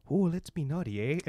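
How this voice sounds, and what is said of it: Terrible put-on Canadian accent. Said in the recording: “that was a terrible accent. That was terrible. ... Absolutely terrible.”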